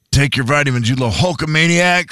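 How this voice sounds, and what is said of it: Hulk Hogan impression. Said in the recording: “What if your mom had Hulk Hogan's voice?”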